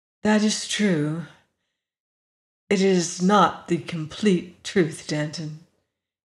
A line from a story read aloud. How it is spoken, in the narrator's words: he said